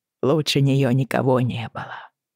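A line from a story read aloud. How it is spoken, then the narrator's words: Whisper. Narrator (Russian): прошептал Алан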